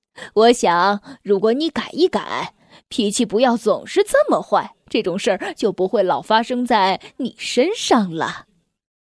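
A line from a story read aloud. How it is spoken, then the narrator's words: Laughing. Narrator (Chinese): 快乐先生笑着说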